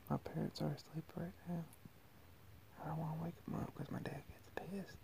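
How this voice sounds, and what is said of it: Whispering. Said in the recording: “Sorry for whispering.”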